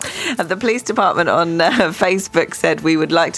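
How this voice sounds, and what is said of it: Usual voice. Nothing is said of it.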